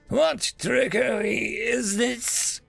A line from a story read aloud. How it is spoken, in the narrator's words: growled through the sharp, scaly snout